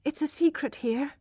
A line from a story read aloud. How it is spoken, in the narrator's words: she begged